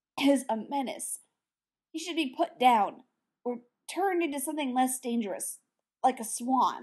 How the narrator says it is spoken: the man said in a strangled tone

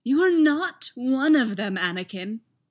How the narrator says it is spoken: Palpatine said with pleading eyes

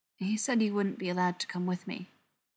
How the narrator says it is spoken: Quietly, he added

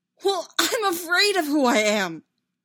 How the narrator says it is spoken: Anakin shouted, his voice cracking on the last syllable

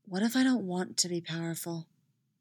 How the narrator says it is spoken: Styles whispers

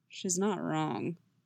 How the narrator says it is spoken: Geralt rumbles

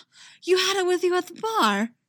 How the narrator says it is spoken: Eggsy gasps

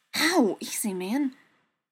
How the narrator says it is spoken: Pain shoots through his arm ... and he hisses

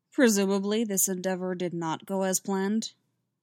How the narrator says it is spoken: Dooku said dryly

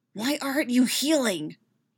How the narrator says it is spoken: hisses

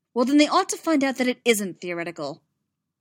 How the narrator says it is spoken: Amidala snapped

